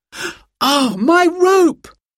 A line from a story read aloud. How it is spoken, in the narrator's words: cried